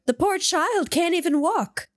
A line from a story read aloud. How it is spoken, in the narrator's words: cried the mother